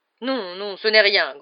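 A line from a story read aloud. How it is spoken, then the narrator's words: Grumbling. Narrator (French): grommela la tante Marge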